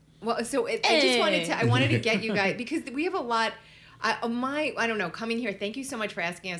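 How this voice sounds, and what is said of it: Brooklyn accent. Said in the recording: “I love the sound of your accent ... Brooklyn”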